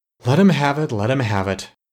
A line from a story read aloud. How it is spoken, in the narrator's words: sighed the King of the Wind Demons